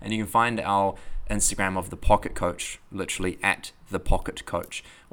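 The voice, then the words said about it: New Zealand accent. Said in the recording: “excuse my New Zealand accent”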